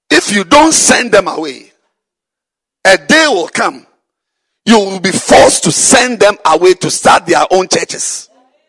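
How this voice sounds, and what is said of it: Strong accent, hard to understand. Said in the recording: “You don't seem to understand my accent. Should I change my accent?”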